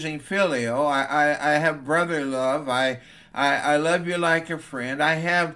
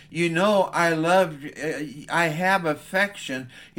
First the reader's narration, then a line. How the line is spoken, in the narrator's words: Peter didn't know how to answer, so he stammered as he said